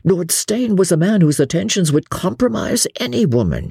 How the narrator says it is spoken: he begged

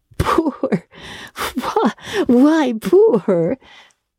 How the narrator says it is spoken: she echoed with a strained laugh

